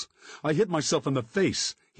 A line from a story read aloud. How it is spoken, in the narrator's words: yelled